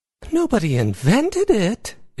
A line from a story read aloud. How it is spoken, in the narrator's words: Izzy exclaimed